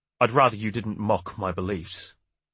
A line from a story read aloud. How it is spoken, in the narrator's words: Osprey said stiffly